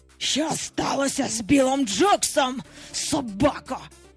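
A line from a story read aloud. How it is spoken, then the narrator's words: Hissing. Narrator (Ukrainian): просичав Гак, погрозливо випроставшись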